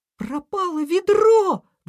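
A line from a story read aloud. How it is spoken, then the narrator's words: Exclamation. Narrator (Russian): воскликнула Ежинка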